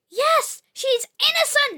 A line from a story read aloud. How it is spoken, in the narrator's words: cried her brothers